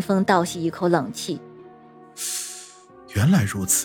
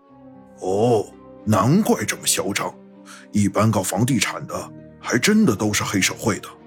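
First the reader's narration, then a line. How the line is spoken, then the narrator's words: Muttering. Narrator (Chinese): 老飞在后面嘀咕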